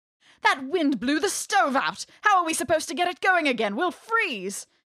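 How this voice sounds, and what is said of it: Crisp English accent. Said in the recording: “there might be a crisp English accent in there”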